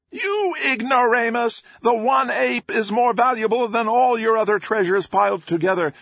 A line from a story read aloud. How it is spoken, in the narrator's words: Maelstrom screeched